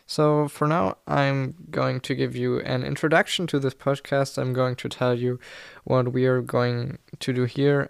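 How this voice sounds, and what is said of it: German accent in English. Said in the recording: “English is not my mother tongue. I'm German ... every time my accent comes through”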